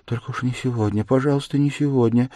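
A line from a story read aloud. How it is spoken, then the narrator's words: Frightened pleading mutter, childlike. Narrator (Russian): бормотала она с замиранием сердца, точно кого-то упрашивая, как ребенок в испуге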